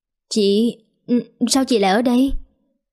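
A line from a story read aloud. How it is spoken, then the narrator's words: Stammering forced smile. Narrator (Vietnamese): Liên Anh sau khi sững sốt mấy giây thì cố gượng cười lắp bắp hỏi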